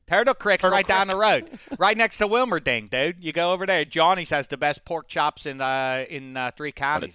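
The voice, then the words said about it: Exaggerated local Pennsylvania accent, badly done. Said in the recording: “What a terrible accent ... That's Mo Damashek has that accent. Yeah, my grandparents”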